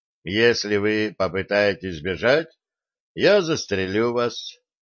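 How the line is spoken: Sudden indifferent statement. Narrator (Russian): вдруг заявил Вилли безразличным тоном

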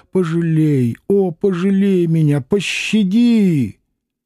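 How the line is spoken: Nearly shouting. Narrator (Russian): она почти крикнула

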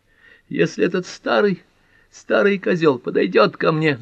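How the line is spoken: Shouted. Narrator (Russian): закричала Нора

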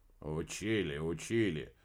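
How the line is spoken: Drawl. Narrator (Russian): протянул Крачин

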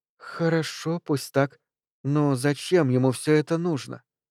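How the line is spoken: Quiet. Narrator (Russian): Моника тихо сказала

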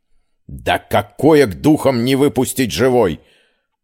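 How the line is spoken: Loud startling bark. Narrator (Russian): Амир так рявкнул, что я вздрогнула

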